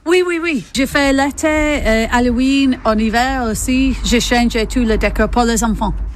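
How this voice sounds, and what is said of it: English accent speaking French. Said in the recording (French): “D'où vous vient votre accent? ... Moi, j'ai venu d'Angleterre”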